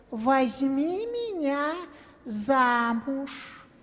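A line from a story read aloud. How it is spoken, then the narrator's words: Frog in human voice. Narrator (Russian): лягушка ему человеческим голосом отвечает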